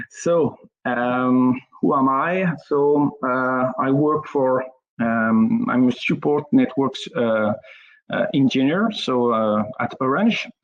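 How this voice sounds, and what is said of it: French accent in English. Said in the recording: “my spoken English and my accent, my French accent.”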